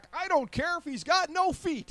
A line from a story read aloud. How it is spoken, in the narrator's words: Ty Cobb, American baseball legend, memorably yelled back